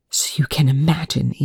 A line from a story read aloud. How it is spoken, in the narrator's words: Eli hissed